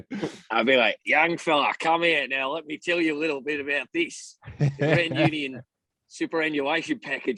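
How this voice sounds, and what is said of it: Broad North Queensland Australian accent. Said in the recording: “North Queensland. I thought he sounds and resembles a bit like, Steve Irwin in the accent ... it's my accent, I feel, will never leave me”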